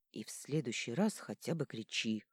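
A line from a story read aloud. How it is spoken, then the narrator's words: Hoarse rasp. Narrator (Russian): прохрипел он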